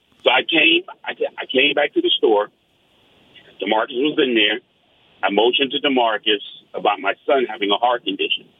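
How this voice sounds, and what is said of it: New York accent. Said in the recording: “I don't know if you can tell from my accent. I'm from New York.”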